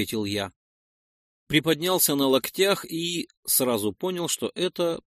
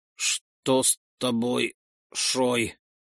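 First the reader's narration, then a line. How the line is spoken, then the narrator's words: Steadier voice question. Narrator (Russian): уже более ровным голосом спросил Утмар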